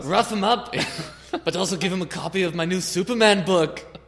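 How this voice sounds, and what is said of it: Put-on accent, slipping. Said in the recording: “You're losing the accent a little bit... You got to go straight on Scrooge McDuck, I think. With a little bit of Space Cadet in there.”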